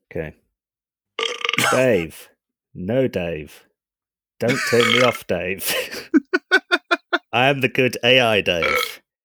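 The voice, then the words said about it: Voice-changed imitation of HAL computer. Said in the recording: “I've got a live voice changer that will make me sound like Hal.”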